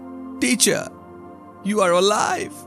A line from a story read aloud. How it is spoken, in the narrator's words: She cried